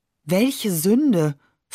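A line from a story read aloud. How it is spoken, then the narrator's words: Plain. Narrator (German): fragt sie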